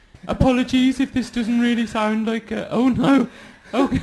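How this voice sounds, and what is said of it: Put-on West Midlands accent. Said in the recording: “I could do a kind of West Midlands accent ... I think maybe this is a bit black country”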